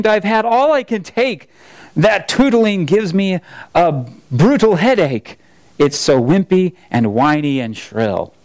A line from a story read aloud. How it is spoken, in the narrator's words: exclaimed